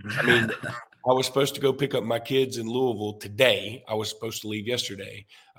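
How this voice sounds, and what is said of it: Sick, weakened voice. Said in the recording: “I can't even do my Game Time voice anymore because I've got COVID.”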